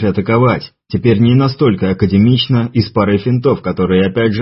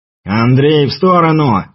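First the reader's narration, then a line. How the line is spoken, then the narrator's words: Shout. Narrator (Russian): крикнул Муха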